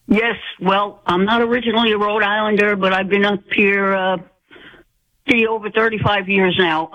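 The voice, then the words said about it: Rhode Island accent. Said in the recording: “I know that accent. I know that accent, darling. I know you're a true Rhode Islander.”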